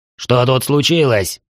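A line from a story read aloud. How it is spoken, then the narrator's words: Irritated bark. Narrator (Russian): Раздраженно рявкнул Теген Ри почти в ухо призраку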